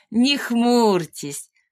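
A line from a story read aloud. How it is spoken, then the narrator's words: Laughing. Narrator (Russian): засмеялась дама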